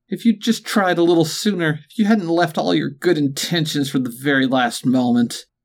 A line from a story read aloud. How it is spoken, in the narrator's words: she sobbed